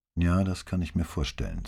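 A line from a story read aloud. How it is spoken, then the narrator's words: Plain. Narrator (German): sagte sie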